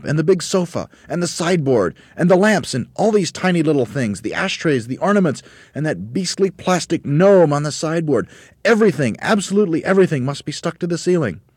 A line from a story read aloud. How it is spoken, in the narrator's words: shouted Mugglewump